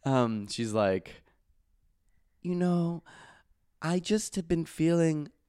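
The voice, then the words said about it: Imitates another person's voice. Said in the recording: “best impression of Giannini. Giannina Nini.”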